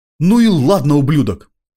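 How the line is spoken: Shout. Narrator (Russian): выкрикнул он

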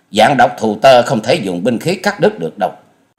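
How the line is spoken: Shouted sharply. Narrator (Vietnamese): Hoa Dần Dần quát lên

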